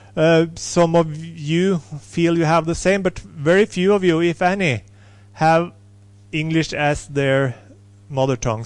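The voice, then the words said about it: Strong non-native English accent. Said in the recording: “I'm not native English, as you can hear ... I have a strong accent.”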